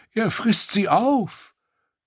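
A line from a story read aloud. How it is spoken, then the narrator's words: Groaning. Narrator (German): stöhnte Reznak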